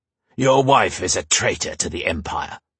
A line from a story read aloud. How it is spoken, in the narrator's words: the soldier growled